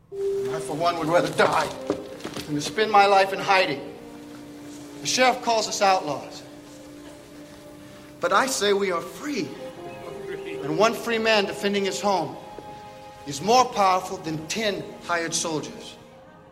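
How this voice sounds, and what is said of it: Unconvincing put-on British accent. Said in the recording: “this so-called English accent ... supposed to be a British accent”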